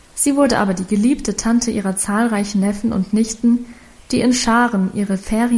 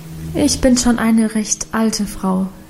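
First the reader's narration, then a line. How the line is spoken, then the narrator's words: Plain. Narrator (German): sagte Guste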